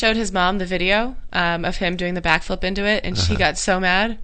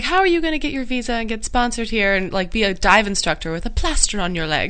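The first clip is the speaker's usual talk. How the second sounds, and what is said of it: Badly imitated foreign accent. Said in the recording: “I'm butchering everyone's accents”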